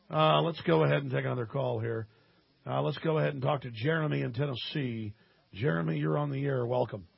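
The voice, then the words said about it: Voice sounds congested from a cold. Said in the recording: “Got a bit of a cold ... That's why I sound a bit different.”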